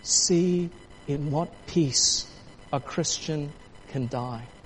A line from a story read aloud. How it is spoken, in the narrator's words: with great force he softly said to him